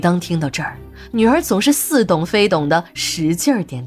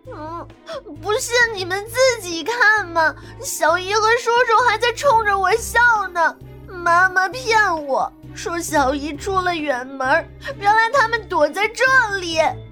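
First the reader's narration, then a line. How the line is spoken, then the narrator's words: Hurt child, sobbing. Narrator (Chinese): 女儿受了委屈，呜呜的哭着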